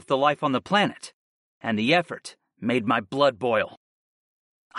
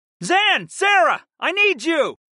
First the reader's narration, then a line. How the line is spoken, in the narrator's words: shouted upward